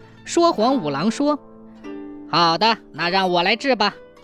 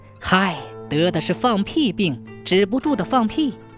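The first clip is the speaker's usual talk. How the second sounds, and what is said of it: Hushed, lowered whisper. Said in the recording (Chinese): “压低声音， 小声说道”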